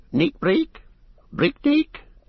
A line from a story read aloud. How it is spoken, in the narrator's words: There were thousands of them, and they squeaked all round